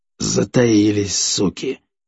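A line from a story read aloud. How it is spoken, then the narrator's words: Grumbling. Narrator (Russian): проворчал Орич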